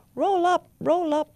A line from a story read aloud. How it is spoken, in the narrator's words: cried the judge, a black crow